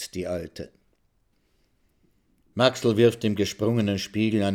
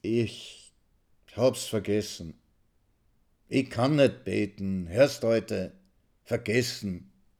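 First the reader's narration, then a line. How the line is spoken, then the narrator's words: Confused, suddenly weak. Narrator (German): rechtfertigt er sich verwirrt, plötzlich schwach wie nach einem heißen Bad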